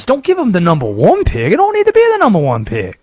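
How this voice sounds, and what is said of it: Imitates another person's voice. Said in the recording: “Where did this accent come from? ... he had to channel the Ed Orgeron there. That's pretty good.”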